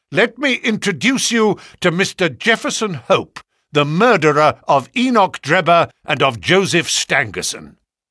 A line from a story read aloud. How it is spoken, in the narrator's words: he cried, with flashing eyes